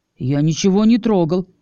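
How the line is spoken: Slightly offended aside. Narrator (Russian): несколько обиженно добавил в сторону

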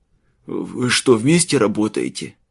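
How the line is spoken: Strained hoarse rasp. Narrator (Russian): с трудом прохрипел он

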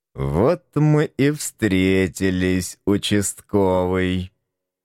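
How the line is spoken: Gloating, through clenched teeth. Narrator (Russian): Злорадно процедил сквозь зубы самый высокий

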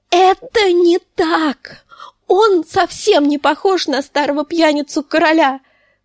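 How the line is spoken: Shouting in grief. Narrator (Russian): закричала она на сестру, забывшись в своем горе

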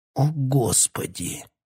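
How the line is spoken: Groan through clenched teeth. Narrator (Russian): простонал Питер Марлоу сквозь сжатые зубы

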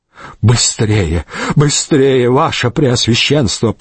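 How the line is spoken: Trembling, urging voice. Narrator (Russian): подгонял дрожащим голосом Вавженец фон Рограу

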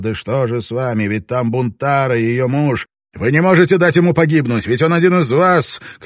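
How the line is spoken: Shouted. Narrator (Russian): крикнул он

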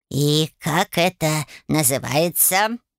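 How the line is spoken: Menacing question. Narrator (Russian): грозно спросил фамильяр

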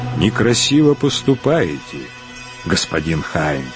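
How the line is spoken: Calm. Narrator (Russian): спокойно сказал Марквард фон Штольберг

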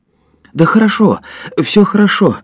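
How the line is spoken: Moved, emotional voice. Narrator (Russian): растроганным голосом произнес Женя

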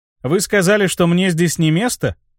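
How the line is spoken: Scoffing snort. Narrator (Russian): хмыкнул я

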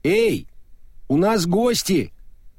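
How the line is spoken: Shouted reply. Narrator (Russian): крикнула в ответ дорогая

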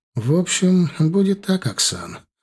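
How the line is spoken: Tired voice. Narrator (Russian): устало проговорила Дилара

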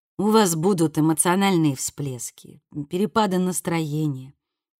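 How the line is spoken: Soft, gentle. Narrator (Russian): мягко продолжала Виккерс

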